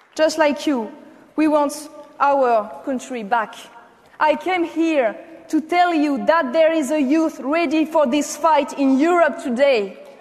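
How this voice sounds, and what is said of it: French-accented English. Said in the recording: “I hope that Americans really like French accents.”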